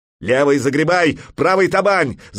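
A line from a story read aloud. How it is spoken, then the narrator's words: Shout. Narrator (Russian): закричал Кительфаст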